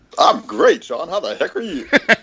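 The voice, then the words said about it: Radio DJ announcer voice. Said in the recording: “And your radio voice. ... That's my DJ voice, dog.”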